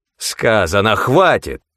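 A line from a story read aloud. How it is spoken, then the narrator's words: Sudden furious bark. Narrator (Russian): С внезапной яростью рявкнул он, отбрасывая видимость любезности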